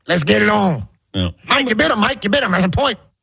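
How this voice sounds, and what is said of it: Imitates another person's voice. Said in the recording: “Do you want to do your Mills Lane?”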